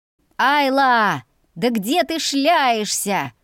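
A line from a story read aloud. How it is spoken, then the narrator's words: Yelling close by. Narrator (Russian): орал совсем рядом Виям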